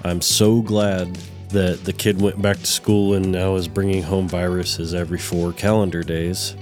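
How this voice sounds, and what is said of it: Sick, rough voice. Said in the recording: “Sorry for my voice. ... The plague has hit my house and everybody's been sick.”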